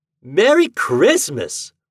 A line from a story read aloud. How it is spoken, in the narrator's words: Reddy shouted